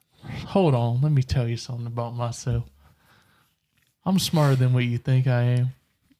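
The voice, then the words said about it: Southern American accent. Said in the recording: “this Southern accent”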